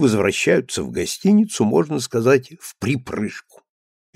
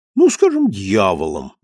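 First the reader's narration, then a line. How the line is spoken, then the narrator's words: Cheerful correction. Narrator (Russian): весело поправляется Клоити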